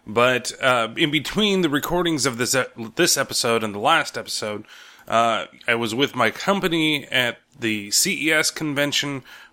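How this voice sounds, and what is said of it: Strained, not fully recovered voice. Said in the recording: “my voice is not 100% back. It still sounds better than it did a couple days ago ... it took a toll on me talking ... It was even worse than what I'm recording right now”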